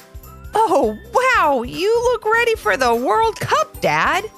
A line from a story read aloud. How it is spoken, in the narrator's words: giggled Levi